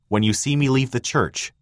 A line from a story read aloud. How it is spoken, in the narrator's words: Thomas had replied